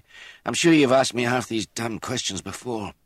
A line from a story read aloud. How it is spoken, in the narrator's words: The fever had tired him, and he added impatiently